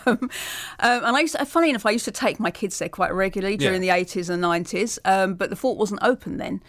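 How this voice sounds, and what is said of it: Essex English accent. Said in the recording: “I used to live in Essex, as you can probably tell from the accent”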